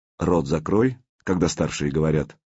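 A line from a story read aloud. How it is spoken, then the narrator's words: Dry. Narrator (Russian): сухо произнес Артем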